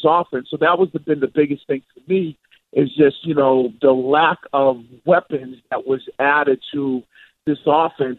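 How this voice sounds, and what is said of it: Boston accent. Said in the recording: “You can hear the Boston accent.”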